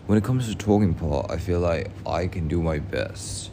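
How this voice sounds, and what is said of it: Speaks English with an accent. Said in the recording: “oh, look at my accent.”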